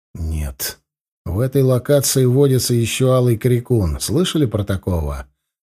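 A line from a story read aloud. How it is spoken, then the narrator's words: Soft reply. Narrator (Russian): мягко ответил я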